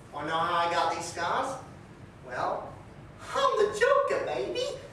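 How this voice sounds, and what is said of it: Joker villain voice impression. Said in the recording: “Here's some Joker impersonations.”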